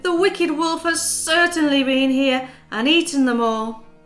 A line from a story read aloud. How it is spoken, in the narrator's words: cried the mother